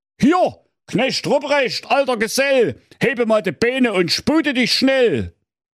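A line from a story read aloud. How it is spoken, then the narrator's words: Old Santa calling out. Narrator (German): sprach da der alte Waldemar Weihnachtsmann, … rief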